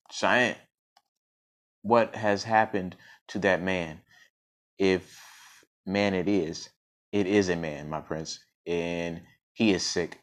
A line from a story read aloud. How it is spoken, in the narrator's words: answered Cheyenne